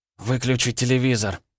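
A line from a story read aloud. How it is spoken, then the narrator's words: Hoarse voice. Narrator (Russian): сказала она хриплым голосом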